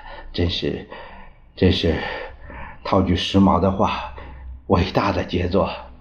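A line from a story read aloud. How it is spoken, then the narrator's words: Admiring exclamation. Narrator (Chinese): 陈布雷抚掌赞叹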